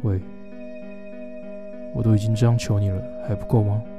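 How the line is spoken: Extremely cold. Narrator (Chinese): 声音听起来异常冷淡

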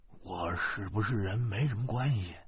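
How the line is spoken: Faint fearful whisper. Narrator (Chinese): 徐大光怕警察听见，声音跟苍蝇似的说

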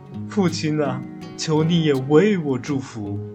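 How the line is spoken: Loud weeping. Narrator (Chinese): 以扫 大声哭着说

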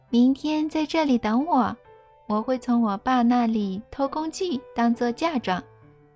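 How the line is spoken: Loud. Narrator (Chinese): 大声对他说

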